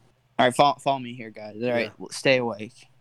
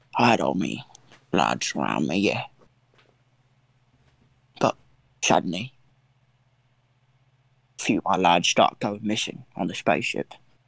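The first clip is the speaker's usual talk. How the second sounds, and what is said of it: Imitates another person's voice. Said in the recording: “You guys like my Michael Caine impression? ... This is my Michael Caine impression.”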